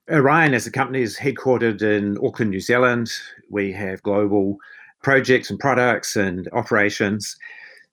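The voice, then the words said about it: Thick New Zealand accent. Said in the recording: “A very thick Kiwi accent.”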